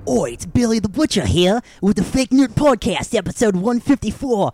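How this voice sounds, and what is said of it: Bad, wandering Australian-ish accent. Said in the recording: “that's the worst accent ever ... That was like kind of Australian, but kind of not. ... I switched all around the world”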